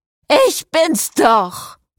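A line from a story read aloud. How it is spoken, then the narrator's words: Bellowing. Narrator (German): brüllte Cecile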